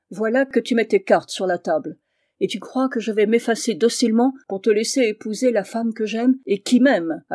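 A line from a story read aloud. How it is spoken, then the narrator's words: Sneering. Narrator (French): ricana Julien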